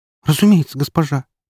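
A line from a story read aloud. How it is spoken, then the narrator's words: Girl's squeak. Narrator (Russian): пискнула девушка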